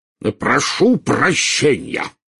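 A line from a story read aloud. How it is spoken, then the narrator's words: Roared. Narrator (Russian): взревел премьер-министр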